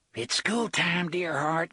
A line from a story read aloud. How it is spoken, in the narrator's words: Gasher whispered